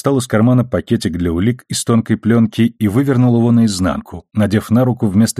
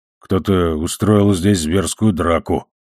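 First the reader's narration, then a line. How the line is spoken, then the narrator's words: Muttering. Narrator (Russian): пробормотал Амос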